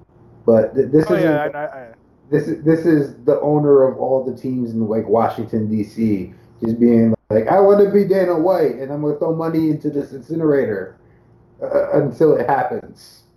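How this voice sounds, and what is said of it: Raised voice with odd mixed accent. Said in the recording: “Fantastic accent. ... That's what happens when I raise my voice. ... It sounded like the Fight Nights global guy meets Jerry Seinfeld.”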